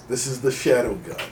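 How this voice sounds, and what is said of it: Disguised, distorted put-on voice. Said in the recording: “stupid voice modulator”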